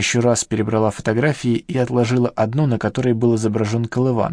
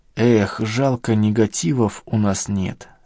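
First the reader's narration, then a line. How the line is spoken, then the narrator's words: Regretful sigh. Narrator (Russian): сокрушенно вздохнула Надежда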